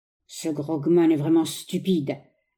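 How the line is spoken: Grumbled under breath. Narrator (French): grommelait-il entre ses dents

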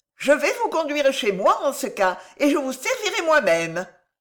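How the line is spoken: Cheerful exclamation. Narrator (French): s'écria gaiement Juan, qui paraissait renaître à la vie

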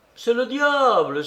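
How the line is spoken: Servant exclaiming. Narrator (French): s'écria le domestique

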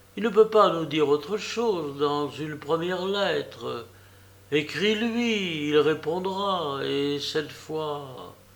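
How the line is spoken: Timid, unconvinced girl. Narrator (French): risqua timidement et sans conviction la pauvre fille

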